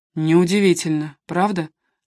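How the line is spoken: Gloomy reply. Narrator (Russian): мрачно отозвался Коттер

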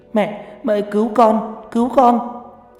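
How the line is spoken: Wailing in pain. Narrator (Vietnamese): Mai bắt đầu gào khóc trong đau đớn

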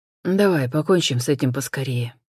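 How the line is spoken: Dry, cracked voice. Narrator (Russian): сухо и натреснуто проронил Джон

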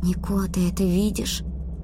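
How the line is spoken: Whispered question. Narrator (Russian): спросила я шепотом

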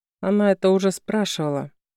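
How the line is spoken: Gloomy. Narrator (Russian): отметила мрачно

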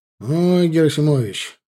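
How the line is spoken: Sighing. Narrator (Russian): вздохнул Аркадий Наумович

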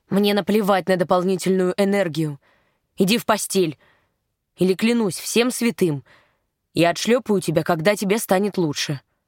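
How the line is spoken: Low irritated promise. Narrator (Russian): пообещал низким и раздраженным тоном

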